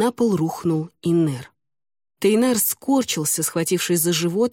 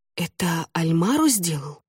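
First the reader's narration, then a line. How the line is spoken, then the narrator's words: Girl's shocked whisper. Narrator (Russian): потрясенно прошептала девушка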